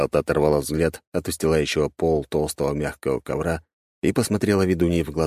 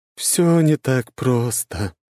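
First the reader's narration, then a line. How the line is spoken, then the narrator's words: Slightly sad smile. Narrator (Russian): немного печально улыбнулась ведунья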